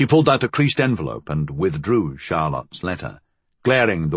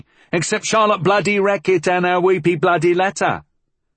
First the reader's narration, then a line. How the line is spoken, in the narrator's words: Molly interrupted loudly